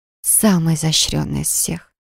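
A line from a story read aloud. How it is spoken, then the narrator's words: Strained whisper. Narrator (Russian): прошептала, с трудом контролируя свои мысли и желания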